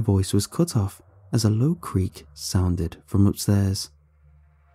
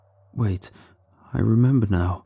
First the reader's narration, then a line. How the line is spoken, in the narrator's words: the subject said shakily